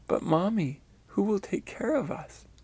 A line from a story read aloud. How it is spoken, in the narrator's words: sweetly said in an encouraging voice